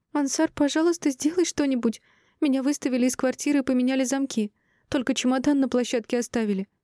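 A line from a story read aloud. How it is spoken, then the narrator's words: Sobbing woman. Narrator (Russian): всхлипнула красавица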